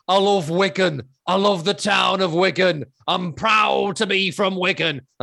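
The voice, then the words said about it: Imitated Wigan accent. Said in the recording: “you won't get this joke because you won't know the accent”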